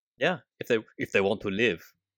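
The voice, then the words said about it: Put-on Austrian accent, not very good. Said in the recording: “That's a very nice Austrian accent right there. ... It's not very good. It's not my best accent.”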